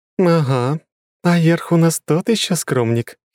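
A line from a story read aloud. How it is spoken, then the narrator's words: Giggling. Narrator (Russian): хихикнула Лора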